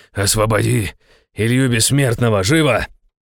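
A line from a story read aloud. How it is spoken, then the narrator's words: Growl. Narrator (Russian): рыкнул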